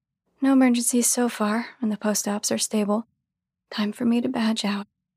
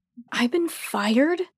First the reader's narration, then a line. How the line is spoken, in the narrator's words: begin indignantly